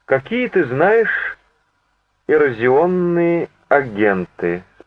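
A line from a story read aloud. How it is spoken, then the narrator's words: Plain. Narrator (Russian): спросил он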